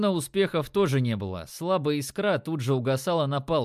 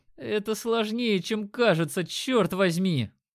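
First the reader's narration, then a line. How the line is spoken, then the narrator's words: Groaning archer. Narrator (Russian): простонал лучник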